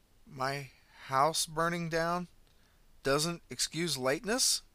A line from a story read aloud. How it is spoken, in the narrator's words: Rory exclaimed